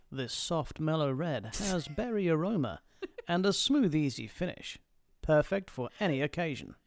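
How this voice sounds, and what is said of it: Smooth TV shopping-channel announcer voice. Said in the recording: “Do it in a wine voice. Yes. QVC wine voice. ... You've got a perfect radio voice.”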